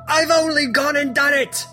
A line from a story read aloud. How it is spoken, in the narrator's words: cackles